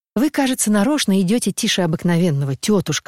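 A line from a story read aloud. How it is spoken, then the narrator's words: Plain. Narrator (Russian): сказал он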